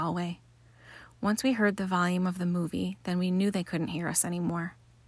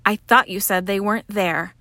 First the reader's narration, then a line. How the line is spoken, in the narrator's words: I snapped back